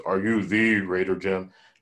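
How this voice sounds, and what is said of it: Deep voice imitating Tim Conway Jr. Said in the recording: “in a real deep voice”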